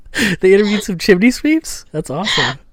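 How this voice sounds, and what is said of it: Dick Van Dyke-style put-on accent. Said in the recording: “a really authentic and non-offensive accent ... I go right to Dick Van Dyke”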